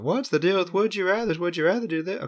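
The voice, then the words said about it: Jerry Seinfeld impression. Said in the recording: “do a Jerry Seinfeld impression.”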